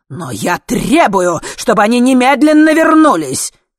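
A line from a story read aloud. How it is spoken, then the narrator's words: Fierce shout. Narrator (Russian): крикнул с самым свирепым видом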